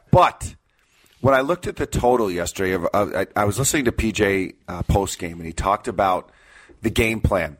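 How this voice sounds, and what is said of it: Rough, strained voice. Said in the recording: “my voice is not here... My voice sounds awful... It was not from screaming for the Gopher game yesterday... Battling allergies.”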